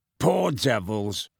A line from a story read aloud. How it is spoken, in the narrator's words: growled Moody